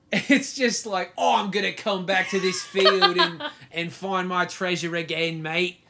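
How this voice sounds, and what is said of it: Put-on Australian accent. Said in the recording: “That was my just like note perfect Australian accent.”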